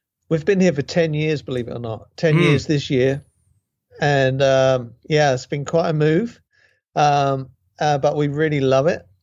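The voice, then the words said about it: British accent. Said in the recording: “you're not in Great Britain... your accent gives you away straight off the bat.”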